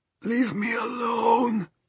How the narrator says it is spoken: wailed the old man

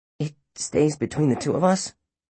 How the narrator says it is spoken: Finn asked nervously

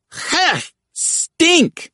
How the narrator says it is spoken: Murrow shouted

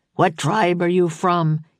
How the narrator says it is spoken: he barked

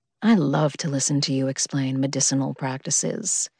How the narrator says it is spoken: he purred

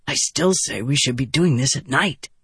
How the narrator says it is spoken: Vatha whispered

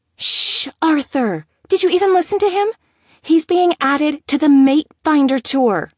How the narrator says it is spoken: Emma exclaimed

